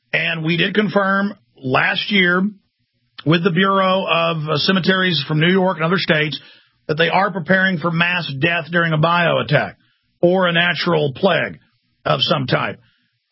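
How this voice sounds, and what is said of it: Southern-sounding American accent. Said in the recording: “somebody else with a southern-sounding accent. I guess they sound a little bit like me.”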